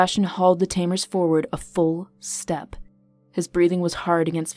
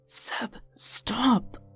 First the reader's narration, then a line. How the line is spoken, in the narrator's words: he whispered hoarsely